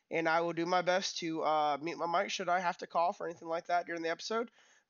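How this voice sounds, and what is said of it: Voice a little off, sick. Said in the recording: “my voice is a little off right now. I am still a little sick”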